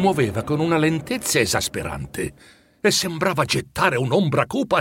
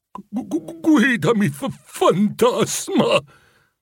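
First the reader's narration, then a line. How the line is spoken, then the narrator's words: Impatient stammer. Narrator (Italian): balbettò Scrooge, impaziente che fosse tutto finito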